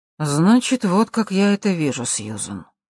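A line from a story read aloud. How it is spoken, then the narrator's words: Tired businesslike tone. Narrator (Russian): усталым деловым тоном ответил Джерри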